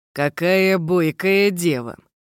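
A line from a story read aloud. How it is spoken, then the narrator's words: Amused hmph. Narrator (Russian): хмыкнул тень теней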